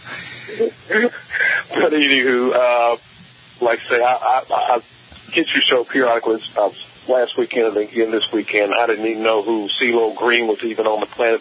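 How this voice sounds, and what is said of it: Southern US accent. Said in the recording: “with a southern accent ... I like southern accents.”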